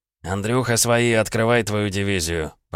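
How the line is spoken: Familiar voice grumbling. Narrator (Russian): проворчал знакомый голос

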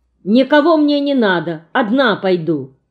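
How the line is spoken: Very angry. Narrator (Russian): говорю я очень сердито

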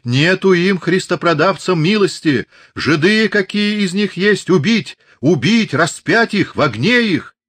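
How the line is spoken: Frenzied choking shout. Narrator (Russian): давясь слюной, закричал

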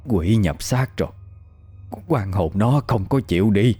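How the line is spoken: Old person mumbling. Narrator (Vietnamese): Một cụ già lẩm bẩm

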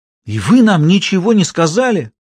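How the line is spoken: Exclamation. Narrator (Russian): воскликнула Сюзанна, обращаясь к Гюго

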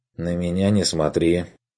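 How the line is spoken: Wary objection. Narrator (Russian): настороженно возразил помощник

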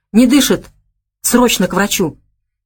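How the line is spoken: Frightened whisper. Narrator (Russian): Испуганным шепотом бросил он

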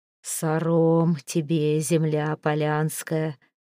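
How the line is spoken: Hoarse ancestral voice. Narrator (Russian): хрипло произнес щур

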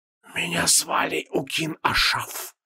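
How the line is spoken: Hissing whisper. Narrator (Russian): донесся до Креола свистящий шепот

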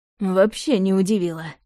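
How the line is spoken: Snorting. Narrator (Russian): хмыкнул Влад

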